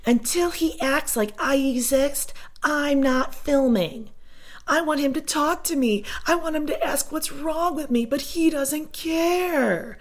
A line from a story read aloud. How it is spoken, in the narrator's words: Janelle is having a full-out temper tantrum, acting like a middle schooler, screaming